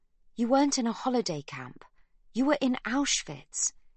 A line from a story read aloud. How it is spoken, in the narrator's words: exclaims Magda